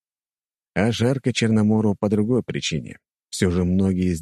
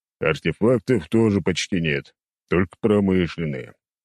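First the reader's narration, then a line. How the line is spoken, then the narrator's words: Displeased grumbling. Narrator (Russian): недовольно пробурчал Черномор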